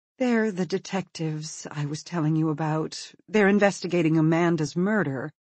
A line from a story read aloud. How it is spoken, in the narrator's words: She says wearily